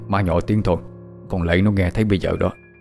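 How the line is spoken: Mumbling. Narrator (Vietnamese): Ông Lục miệng lí nhí

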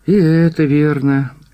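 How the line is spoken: Heavy sigh. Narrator (Russian): еще тяжелее вздохнул директор

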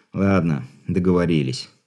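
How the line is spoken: Hopeless sigh. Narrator (Russian): безнадежно вздохнул Григорий

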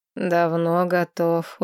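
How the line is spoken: Tired reply. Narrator (Russian): устало отозвался ректор

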